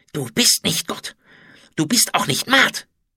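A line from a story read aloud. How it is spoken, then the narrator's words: Hateful hiss. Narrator (German): zischte er voller Hass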